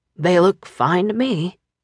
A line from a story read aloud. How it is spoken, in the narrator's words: Dean said huskily